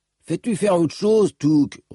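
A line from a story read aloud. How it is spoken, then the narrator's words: Grumbling. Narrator (French): ronchonna Tonne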